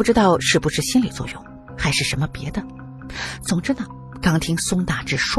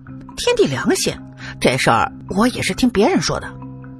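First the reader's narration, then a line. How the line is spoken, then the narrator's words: Laughing. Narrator (Chinese): 宋大志却是笑着说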